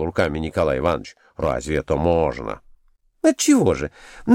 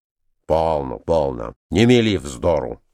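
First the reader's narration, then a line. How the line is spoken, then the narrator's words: Stern. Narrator (Russian): строго заметил ей Николай Иванович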